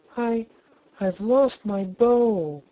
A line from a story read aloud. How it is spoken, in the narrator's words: wailed Polychrome